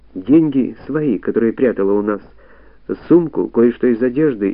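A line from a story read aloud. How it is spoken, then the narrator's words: Hesitant drawl, then hurried. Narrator (Russian): неуверенно протянула Зося и торопливо закончила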